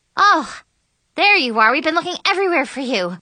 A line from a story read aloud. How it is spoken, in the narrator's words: panted